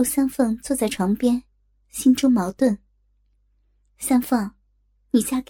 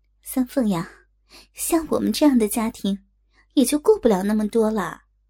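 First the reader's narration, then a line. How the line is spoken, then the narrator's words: Sighing. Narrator (Chinese): 刘丽叹了口气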